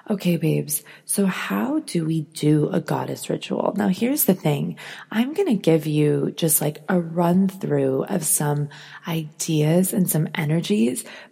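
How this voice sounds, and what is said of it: Deeper than usual, just-woke-up voice. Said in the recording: “my voice sounds a little deeper than usual. I just woke up like an hour ago”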